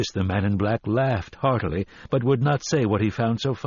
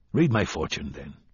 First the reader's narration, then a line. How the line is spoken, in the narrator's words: Roland said harshly